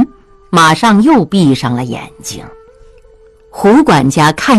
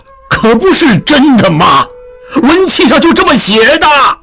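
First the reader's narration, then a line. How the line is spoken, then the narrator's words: Shouting. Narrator (Chinese): 景清大叫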